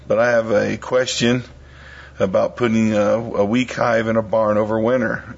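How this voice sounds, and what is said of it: Worn-out voice from illness. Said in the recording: “I'm a little down underneath the weather ... my voice is a little shot”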